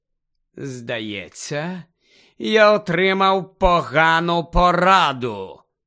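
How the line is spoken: High cold voice shaking angrily. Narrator (Ukrainian): вимовив Гаррі високим холодним голосом, котрий аж тремтів від злості

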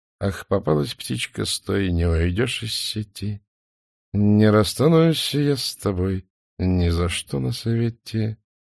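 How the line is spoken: Soft singing. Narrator (Russian): тихонько напевал охотник

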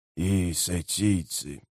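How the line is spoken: Grumbled. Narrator (Russian): буркнул Леоман

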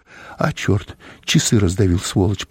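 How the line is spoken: Muttering. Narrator (Russian): пробормотал он

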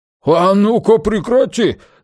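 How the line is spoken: Shouting. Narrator (Russian): закричал Арне

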